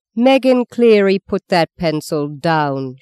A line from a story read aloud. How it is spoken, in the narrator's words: she thundered